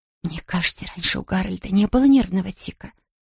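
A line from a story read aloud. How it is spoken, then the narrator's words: Embarrassed whisper. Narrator (Russian): смущенно прошептала миссис Браун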